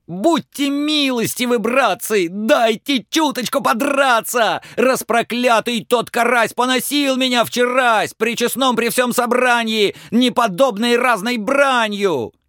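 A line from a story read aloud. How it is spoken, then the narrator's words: Prolonged shouting. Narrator (Russian): Долго ёрш еще кричал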